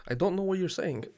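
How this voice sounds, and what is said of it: Put-on foreign accent. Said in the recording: “you do that accent way too well”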